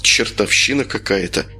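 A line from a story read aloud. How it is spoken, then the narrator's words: Mutter. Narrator (Russian): пробормотал Юра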